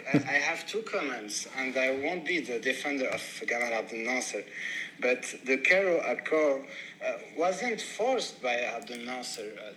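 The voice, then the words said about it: Non-native English accent. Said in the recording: “sorry for my English accent”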